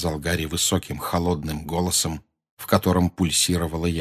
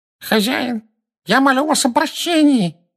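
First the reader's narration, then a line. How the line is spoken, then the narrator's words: Nasal pleading. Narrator (Russian): прогнусавил человек, стоящий на коленях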